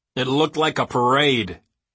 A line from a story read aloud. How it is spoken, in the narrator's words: Smith growled